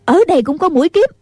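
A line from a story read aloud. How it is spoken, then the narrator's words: Shouting from afar. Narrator (Vietnamese): Nghi Hòa ở hậu điện la lên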